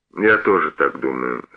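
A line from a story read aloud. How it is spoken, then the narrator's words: Calm. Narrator (Russian): спокойно сказал он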